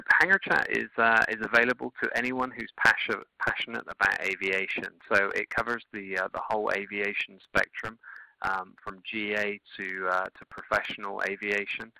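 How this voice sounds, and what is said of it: English accent, slightly unusual. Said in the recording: “I notice a bit of an accent there ... I'm actually originally from England ... I've got a slightly different accent than most”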